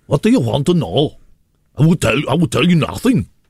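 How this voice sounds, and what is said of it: Put-on German accent. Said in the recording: “German.”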